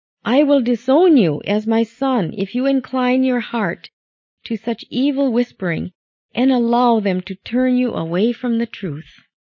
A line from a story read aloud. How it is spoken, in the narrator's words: she cried out these heart-touching words